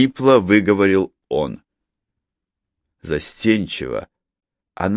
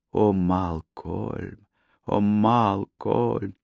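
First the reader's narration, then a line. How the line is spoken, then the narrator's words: Soft loving coo. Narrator (Russian): Тихо воркуя, она сгорая от любви, повторяя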